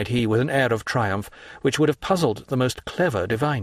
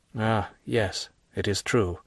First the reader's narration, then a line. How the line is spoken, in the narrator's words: murmured d'Avrigny